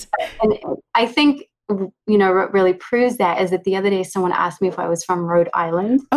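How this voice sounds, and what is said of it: Mixed Californian and New Zealand accent. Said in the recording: “half California, maybe three quarter California accent and a quarter New Zealand ... a very mixed up accent and would sound a bit strange”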